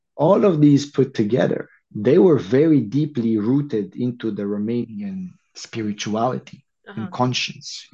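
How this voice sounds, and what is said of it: Foreign-accented English. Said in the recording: “Oh, I'm loving this accent.”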